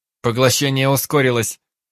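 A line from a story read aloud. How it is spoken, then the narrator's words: Shout. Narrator (Russian): выкрикнул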